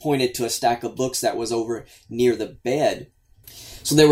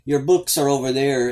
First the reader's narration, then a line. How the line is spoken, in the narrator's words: she had slurred her words and said